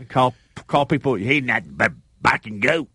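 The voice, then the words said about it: Imitates another person's voice. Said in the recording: “my best Wimp Sanderson impersonation”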